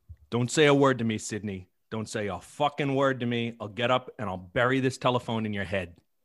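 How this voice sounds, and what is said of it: Angry line with Boston-New York accent. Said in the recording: “I hear an accent in there ... He's from Boston. His character's from Boston. ... He's got like a New York Boston thing going.”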